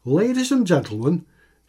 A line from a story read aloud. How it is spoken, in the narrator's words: shouted Mickey